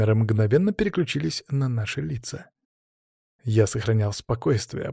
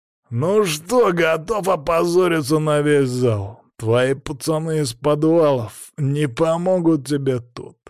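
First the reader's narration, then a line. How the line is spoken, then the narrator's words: Growl. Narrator (Russian): зарычал он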